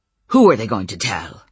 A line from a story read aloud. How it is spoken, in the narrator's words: Uncle Mike snapped